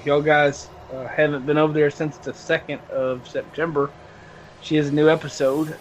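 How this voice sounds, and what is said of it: Southern American accent. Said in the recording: “I'm just from the south. I got a bad accent”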